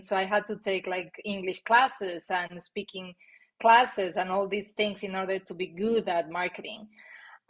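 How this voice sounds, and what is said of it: Non-native English accent. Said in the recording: “my accent was kind of a limiting belief of mine, and people didn't really under, understood me ... people find it either interesting or charming”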